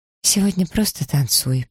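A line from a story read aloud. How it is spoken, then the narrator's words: Forced calm. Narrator (Russian): посоветовала Элиза, мучительно силясь говорить спокойно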